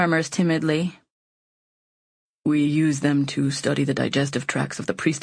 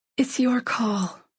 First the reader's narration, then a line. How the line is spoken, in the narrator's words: I whisper